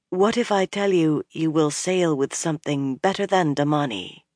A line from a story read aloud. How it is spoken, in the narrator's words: Nynaeve said softly